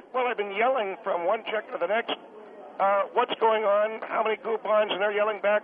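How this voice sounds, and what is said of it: Hoarse, rough, strained voice. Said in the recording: “You can hear I've almost lost my voice. ... I can hear. It's a little rough.”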